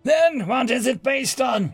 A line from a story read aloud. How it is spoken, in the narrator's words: He shouted